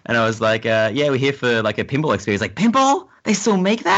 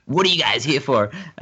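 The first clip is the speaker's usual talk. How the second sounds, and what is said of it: Put-on American accent. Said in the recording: “that's my American accent, by the way.”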